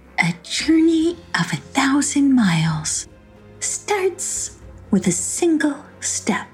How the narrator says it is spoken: she murmured to herself

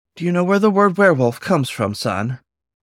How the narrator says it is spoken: The dun wolf sighed

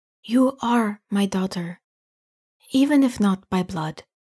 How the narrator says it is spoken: Anita whispers

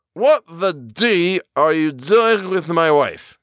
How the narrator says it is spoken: cried rather thickly

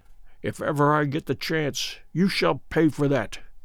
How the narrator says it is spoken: I heard Good mutter beneath his breath

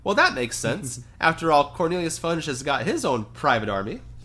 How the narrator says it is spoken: Luna Lovegood, who piped up

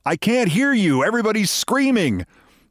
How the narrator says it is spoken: Tom Hanks clenched it while he was yelling

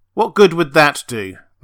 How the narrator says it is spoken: Ress snapped

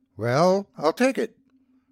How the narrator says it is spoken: replied Ernest Max, somewhat hesitantly

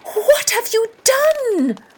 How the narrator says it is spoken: the woman shouted

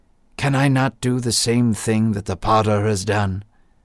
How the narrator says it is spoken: God said softly

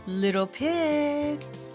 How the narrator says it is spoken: called sweetly

